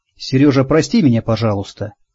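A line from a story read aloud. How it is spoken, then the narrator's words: Quiet. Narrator (Russian): тихо проговорила она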